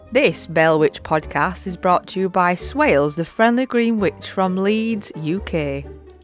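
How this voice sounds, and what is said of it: Strong Yorkshire accent. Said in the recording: “A northern witch with a strong Yorkshire accent”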